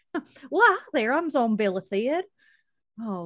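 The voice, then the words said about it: Really bad southern accent. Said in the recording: “in overalls with a really, really bad southern accent.”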